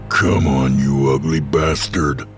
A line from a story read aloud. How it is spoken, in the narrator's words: growled Hank